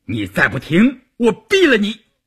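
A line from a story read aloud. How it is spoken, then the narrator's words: Roar. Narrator (Chinese): 关山林吼道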